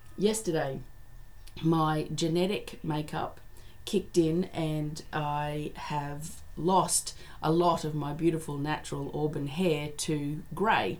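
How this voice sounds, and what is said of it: Slightly croaky, hoarse voice. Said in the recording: “my voice is a little bit dodgy, so Monday it was still too croaky”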